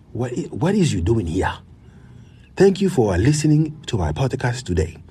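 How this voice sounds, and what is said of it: Put-on African accent. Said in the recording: “I'm gonna work on my African accent”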